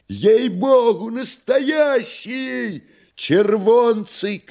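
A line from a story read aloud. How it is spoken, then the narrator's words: Joyful shouting from afar. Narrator (Russian): кричали с галерки радостно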